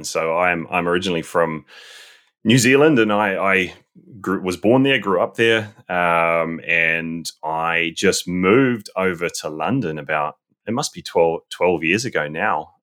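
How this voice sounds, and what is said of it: Accent not fully British. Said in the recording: “your accent, does not sound totally British”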